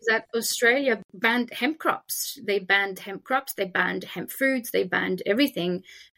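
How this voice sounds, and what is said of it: French accent. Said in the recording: “obviously you can hear my French accent”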